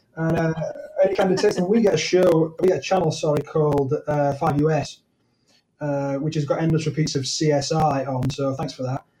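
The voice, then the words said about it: British accent. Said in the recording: “by your accent, in case people didn't pick that up, you are from what we call the other side of the pond... British accents”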